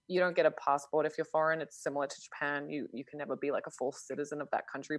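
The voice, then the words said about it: Somewhat British-sounding accent. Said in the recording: “I have kind of a more British accent from like living in international schools”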